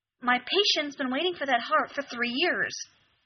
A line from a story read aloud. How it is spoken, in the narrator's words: she snaps